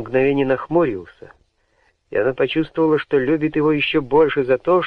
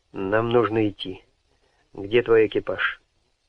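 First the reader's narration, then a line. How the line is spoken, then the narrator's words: Businesslike tone. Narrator (Russian): лорд Харткорт сказал деловым тоном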